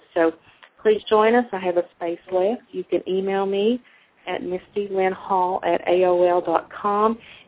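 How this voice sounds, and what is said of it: Southern American accent. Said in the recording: “my southern accent may not quite ring through everyone's ear correctly”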